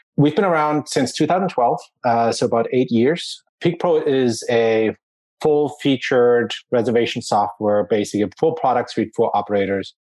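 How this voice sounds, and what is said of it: German accent. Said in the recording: “I'm originally from Germany, just to help you pinpoint that accent”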